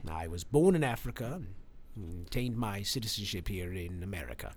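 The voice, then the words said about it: Strong British accent. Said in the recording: “Why do you have a British accent if you're from Michigan? ... It's very strong.”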